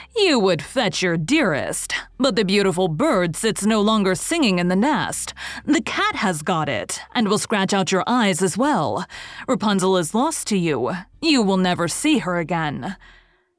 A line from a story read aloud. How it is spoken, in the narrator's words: she cried mockingly